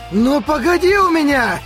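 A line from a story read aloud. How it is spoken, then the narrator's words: Spat-out shout. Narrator (Russian): крикнул, как выплюнул Харуюки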